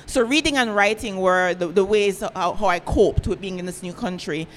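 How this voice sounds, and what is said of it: Thick accent. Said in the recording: “now I know I have a thick accent”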